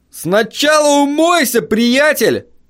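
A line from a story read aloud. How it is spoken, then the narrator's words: Shout. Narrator (Russian): крикнул мне водитель пикапа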